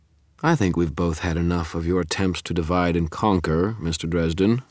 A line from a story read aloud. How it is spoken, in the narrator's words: Marconi said, his voice bored